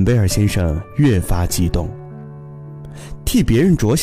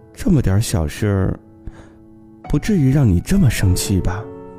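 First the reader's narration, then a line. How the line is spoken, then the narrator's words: Muttering. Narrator (Chinese): 我嘟囔着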